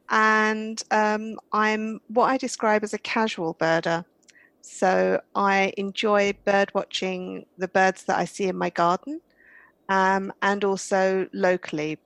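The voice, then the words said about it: British accent. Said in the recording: “I'm British, as you might be able to tell from my accent.”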